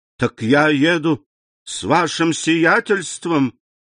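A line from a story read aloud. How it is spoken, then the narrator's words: Exclaiming. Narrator (Russian): воскликнул Бертуччо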